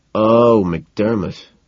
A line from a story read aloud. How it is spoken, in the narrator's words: I moan